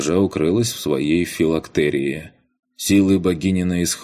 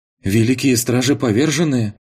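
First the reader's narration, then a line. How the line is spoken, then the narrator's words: Breathless, just awakened. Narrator (Russian): Выдохнула проснувшаяся, наконец, Ваесса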